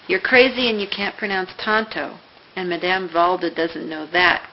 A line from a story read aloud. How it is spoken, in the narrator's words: Kelsey murmured